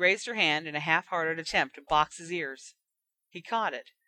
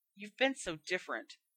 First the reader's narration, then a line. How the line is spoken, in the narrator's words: Hermione muttered